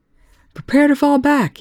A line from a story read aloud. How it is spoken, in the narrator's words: Young shouted